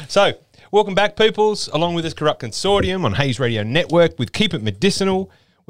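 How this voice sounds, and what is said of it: Odd put-on accent. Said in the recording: “What's with that accent? ... I've just gone weird.”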